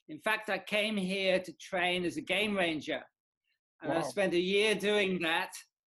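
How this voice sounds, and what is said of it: British English accent. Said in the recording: “You sound British to me.”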